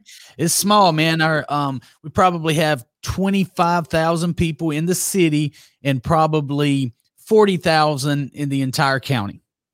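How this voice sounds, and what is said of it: Southern US accent. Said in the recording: “You can probably tell by that Southern accent.”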